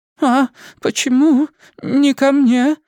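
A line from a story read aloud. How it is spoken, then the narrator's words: Trembling voice, old woman. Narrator (Russian): спросила дрожащим голосом худая, как щепка, пожилая дама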